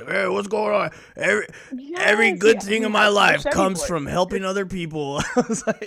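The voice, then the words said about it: Imitates another person's voice. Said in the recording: “good Danny Trejo impression”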